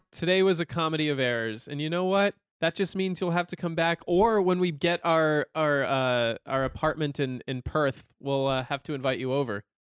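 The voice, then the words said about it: American accent. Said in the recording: “I'm going to keep my American accent.”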